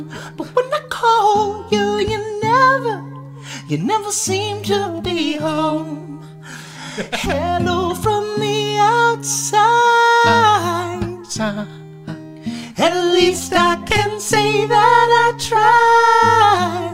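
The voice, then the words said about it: Singing, soprano into falsetto, slightly pitchy. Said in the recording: “He blends so easily from soprano into falsetto. ... A little pitchy there”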